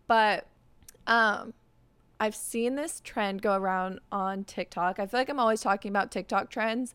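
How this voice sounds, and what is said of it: Slightly raspy morning voice. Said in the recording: “my voice sounds like a little raspy. ... it's the morning. So I feel like I still have morning voice”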